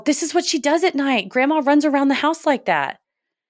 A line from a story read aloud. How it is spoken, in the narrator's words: Bon and I began to point and yell